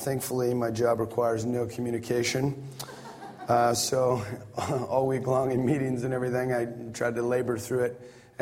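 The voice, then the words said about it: Strained, partly lost voice. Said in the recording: “my voice is less than ideal. I lost it earlier this week ... this is actually sounding much better than it was earlier”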